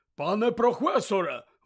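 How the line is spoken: Exclaiming. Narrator (Ukrainian): вигукнув він

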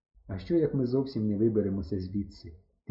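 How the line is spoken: Quiet. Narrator (Ukrainian): тихо сказав я

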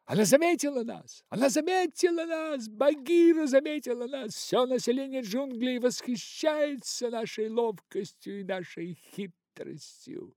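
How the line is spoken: Monkeys howling with delight. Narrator (Russian): Обезьяны завыли от восторга и закричали

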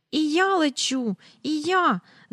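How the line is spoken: Shriek. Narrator (Ukrainian): заверещала Джейн, несподівано відірвавшись від землі

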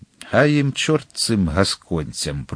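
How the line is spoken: Muttering. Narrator (Ukrainian): пробурмотів він усе-таки

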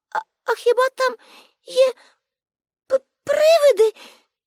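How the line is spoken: Frightened question. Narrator (Ukrainian): злякано спитала Аніка

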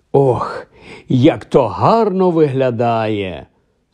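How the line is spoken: Sad wistful sigh. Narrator (Ukrainian): Сумовито зітхнув привид у трико

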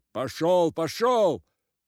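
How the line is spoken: Shouting blacksmith. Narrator (Russian): закричал кузнец

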